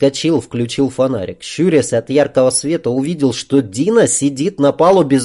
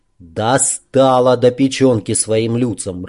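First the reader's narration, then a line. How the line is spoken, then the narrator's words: Irritated. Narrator (Russian): раздраженно произнес Сашок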